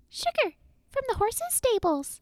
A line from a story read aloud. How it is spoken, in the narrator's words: he squeaked excitedly